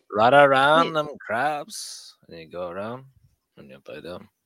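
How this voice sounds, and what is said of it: Put-on Cajun accent. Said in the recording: “when you're talking that Cajun accent”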